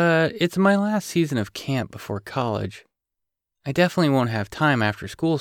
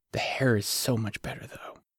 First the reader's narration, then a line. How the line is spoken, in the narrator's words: she whispered